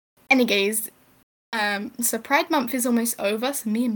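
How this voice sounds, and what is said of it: Usual voice. Nothing is said of it.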